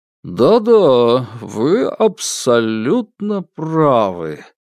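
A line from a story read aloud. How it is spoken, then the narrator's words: Drawl. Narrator (Russian): протянул Владимир Николаевич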